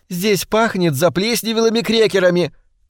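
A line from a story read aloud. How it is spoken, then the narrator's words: Shouted. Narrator (Russian): крикнула ему Хелен Палмер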